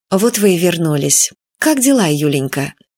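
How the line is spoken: Gentle affectionate speech. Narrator (Russian): Виктория Федоровна ласково сказала

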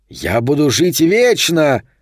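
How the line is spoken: Shouting volcano. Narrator (Russian): кричал вулкан

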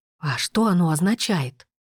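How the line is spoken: Whispered question. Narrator (Russian): Все так же шепотом спросил Брен

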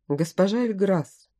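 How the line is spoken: Quiet speech. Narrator (Russian): сказал он тихо

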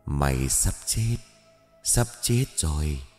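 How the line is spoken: Whispered in ear. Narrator (Vietnamese): người này tiến tới gần thì thầm vào tai

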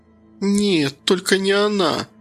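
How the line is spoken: Moaning. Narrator (Russian): простонала Кира

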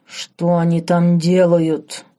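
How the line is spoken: Low, growling hiss. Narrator (Russian): Чужим низким рычащим голосом прошипел герцог

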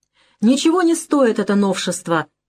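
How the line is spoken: Angry shouting. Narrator (Russian): кричала Иза, сверкая глазами

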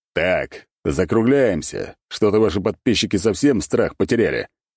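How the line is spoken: Growled. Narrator (Russian): рыкнул я

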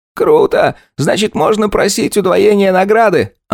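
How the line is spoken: Delighted exclamation. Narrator (Russian): обрадованно воскликнул Виталик

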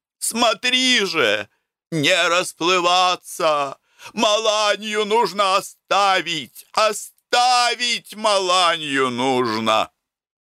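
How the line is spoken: Shouted from above. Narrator (Russian): Прелестнов, должно быть, не выдержал ... сверху закричал мне

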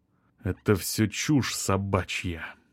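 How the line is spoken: Restrained, through gritted teeth. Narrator (Russian): сдержанно процедил он

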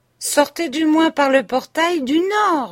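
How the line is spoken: Shouted. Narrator (French): leur cria le Suisse

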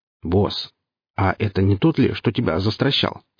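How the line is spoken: Plain question. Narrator (Russian): спросил собеседник

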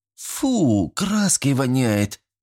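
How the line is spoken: Groaning. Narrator (Russian): простонала Елена

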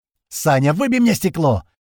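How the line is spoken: Shouting. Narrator (Russian): закричал Вася

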